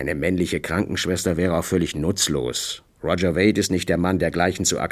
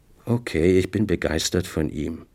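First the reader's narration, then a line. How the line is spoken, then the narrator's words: Tired. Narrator (German): sagte müde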